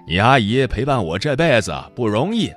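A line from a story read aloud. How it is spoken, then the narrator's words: Hearty laughter. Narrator (Chinese): 哈哈大笑着说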